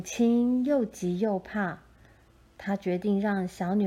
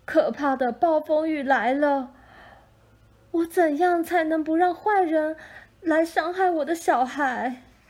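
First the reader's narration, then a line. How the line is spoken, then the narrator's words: Crying out, weeping. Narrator (Chinese): 母亲哭喊着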